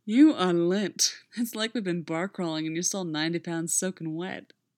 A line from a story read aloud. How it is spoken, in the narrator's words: he slurred